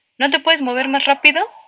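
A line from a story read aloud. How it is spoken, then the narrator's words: Shouting. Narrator (Spanish): me gritaba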